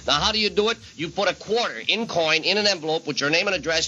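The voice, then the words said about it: Upstate New York accent. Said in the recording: “this is upstate New York accent coming up ... Ithaca”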